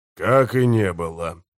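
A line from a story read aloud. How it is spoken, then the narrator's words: Sighing. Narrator (Russian): вздохнул у него за спиной Гесслер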